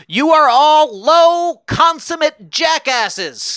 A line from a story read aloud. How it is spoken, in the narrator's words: Guiteau stepped forward to yell